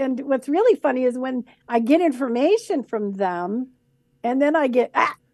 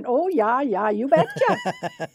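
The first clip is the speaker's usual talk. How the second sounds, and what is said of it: Put-on Minnesota accent. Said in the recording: “sounds like she's from Minnesota with that wonderful Minnesota accent.”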